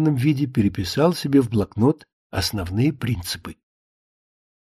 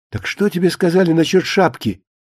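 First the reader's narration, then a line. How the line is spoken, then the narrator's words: Sudden loud sharp question. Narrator (Russian): вдруг спросила Кукуша, спросила громко, резко, не к месту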